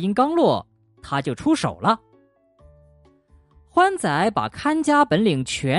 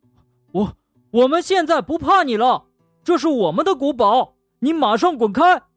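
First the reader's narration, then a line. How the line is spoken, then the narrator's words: Brave shout. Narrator (Chinese): 欢仔做了个深呼吸，鼓起勇气喊道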